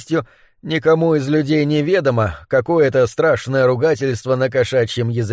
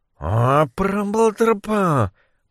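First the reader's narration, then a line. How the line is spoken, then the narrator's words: Muttering to himself. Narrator (Russian): пробормотал про себя Моррис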